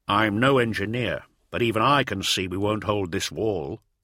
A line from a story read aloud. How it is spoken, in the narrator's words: said Barker